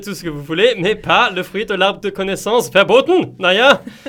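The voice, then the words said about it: Put-on German accent. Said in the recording (French): “c'est l'accent allemand qui vous, euh, qui vous surprend”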